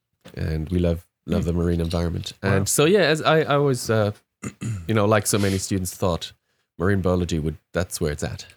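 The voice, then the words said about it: German accent. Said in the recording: “by my accent, you hear that I'm not originally from here... many, many Germans who live in Australia”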